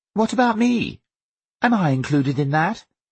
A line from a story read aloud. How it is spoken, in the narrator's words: Viola said in that faux chirpy way that she had when she was trying to pretend they were all one happy family